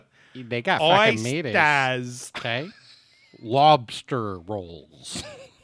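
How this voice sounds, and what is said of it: Put-on Boston accent, sounds British. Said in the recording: “That's how you know when someone can do the Boston accent right ... You sounded like a British actor doing an American accent.”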